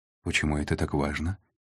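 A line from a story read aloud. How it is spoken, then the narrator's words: Quiet question. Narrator (Russian): тихо спросила Снежана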